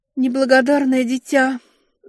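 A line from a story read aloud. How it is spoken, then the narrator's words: Sighing. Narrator (Russian): вздохнула она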